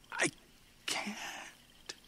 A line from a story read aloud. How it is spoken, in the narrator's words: whispered